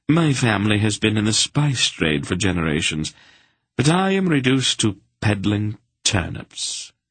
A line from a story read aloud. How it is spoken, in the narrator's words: he sighed